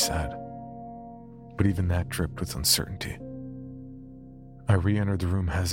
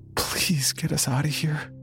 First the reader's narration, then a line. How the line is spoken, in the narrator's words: whimpered